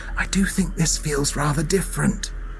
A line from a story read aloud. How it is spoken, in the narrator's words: whispered Anne